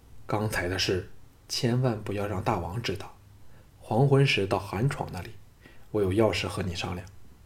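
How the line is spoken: Low voice. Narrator (Chinese): 低声说

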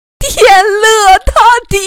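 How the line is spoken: Frantic hoarse scream. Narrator (Chinese): 婆婆…嘶声喊着

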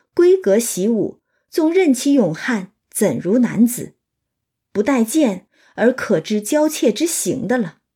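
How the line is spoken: Laughing. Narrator (Chinese): 宝玉便笑道

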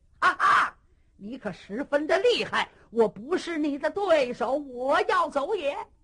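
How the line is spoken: Shout. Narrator (Chinese): 黄天虎喊了一声

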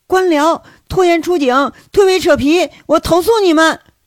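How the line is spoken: Shouting. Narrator (Chinese): 喊归喊

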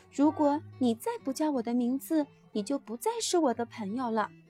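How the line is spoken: Quiet voice. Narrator (Chinese): 我小声地对玛丽说

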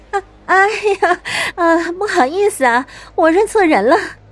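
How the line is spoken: Flustered apologetic laugh. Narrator (Chinese): 她连忙强装镇定地扯了扯嘴角，陪笑道

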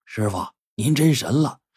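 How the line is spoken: Low voice. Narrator (Chinese): 徒弟低声说

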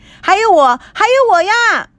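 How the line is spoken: Deafening shout. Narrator (Chinese): 震耳叫声惊天动地传来

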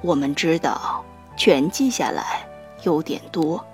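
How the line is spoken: Soft. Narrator (Chinese): 爸爸轻声地说

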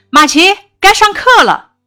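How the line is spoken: Calling out. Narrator (Chinese): 马奇的妈妈就喊了起来

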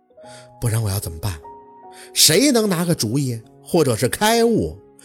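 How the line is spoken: Sighing. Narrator (Chinese): 小讨厌却只剩叹息

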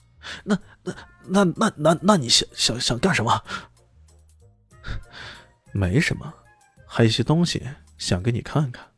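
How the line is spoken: Trembling, frightened voice. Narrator (Chinese): 脸上的惊恐越来越甚了，他颤声的说道

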